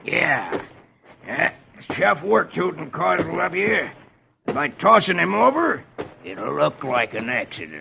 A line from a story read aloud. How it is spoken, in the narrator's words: Etch growls